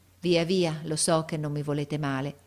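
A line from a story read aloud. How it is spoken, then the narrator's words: With a sigh. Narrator (Italian): e mise un sospiro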